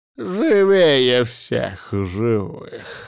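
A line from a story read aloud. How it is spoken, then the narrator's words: Spiteful mutter, doctor. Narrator (Russian): злобно пробормотал лекарь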